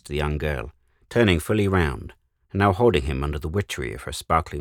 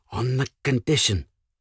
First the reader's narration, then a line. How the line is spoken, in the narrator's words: he stammered